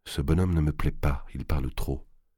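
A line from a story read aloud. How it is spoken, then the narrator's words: Low voice. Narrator (French): il dit à voix basse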